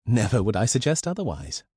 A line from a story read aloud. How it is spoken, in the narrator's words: replied Elizabeth with a laugh